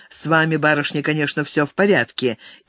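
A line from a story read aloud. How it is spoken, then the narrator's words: Curt command. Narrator (Russian): Главный отрывисто приказал девице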